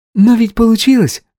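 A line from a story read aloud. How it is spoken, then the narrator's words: Cheerful answer. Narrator (Russian): весело ответила Оля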